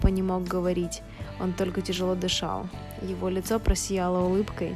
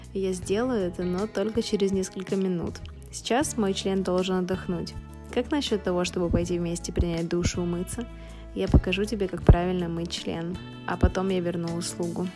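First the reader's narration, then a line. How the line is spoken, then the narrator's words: Laughing. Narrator (Russian): Евгений засмеялся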